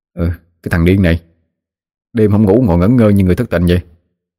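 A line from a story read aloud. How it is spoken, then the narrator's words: Sleepy grumbling. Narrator (Vietnamese): Đoàn hé mắt tỉnh dậy, lào bầu nói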